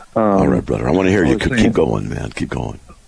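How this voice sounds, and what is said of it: Deeper than usual, chesty voice. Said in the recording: “got a chest cold, my voice is a little bit deeper than usual”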